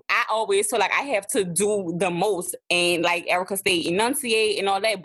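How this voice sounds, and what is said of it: Thick New Orleans accent. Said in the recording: “my New Orleans accent is thick. It's there, okay? ... you still know that I am from New Orleans”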